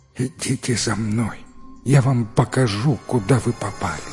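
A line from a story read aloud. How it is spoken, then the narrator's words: Sobbing, stammering, barely moving lips. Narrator (Russian): Живой труп, едва шевеля губами, всхлипывая и заикаясь, произнес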